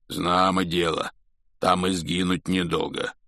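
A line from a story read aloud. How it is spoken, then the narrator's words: Hoarse rasp. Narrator (Russian): прохрипел Хагрид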